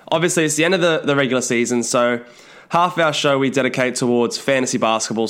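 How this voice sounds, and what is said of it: Voice sounds a bit off, unwell. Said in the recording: “I've been feeling a bit under the weather, so if my voice sounds a bit off or I have to stop and blow my nose”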